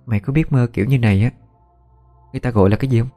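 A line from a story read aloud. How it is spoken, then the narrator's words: Frightened whisper. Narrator (Vietnamese): cái châu kinh hãi, rồi thì thầm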